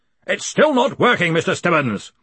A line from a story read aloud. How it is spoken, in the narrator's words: he bellowed